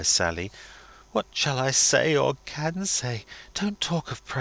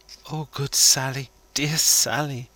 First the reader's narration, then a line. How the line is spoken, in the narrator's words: moans the lady, entreatingly